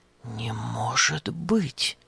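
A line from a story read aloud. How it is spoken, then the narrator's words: Puzzled whisper. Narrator (Russian): озадаченно прошептал Епафраз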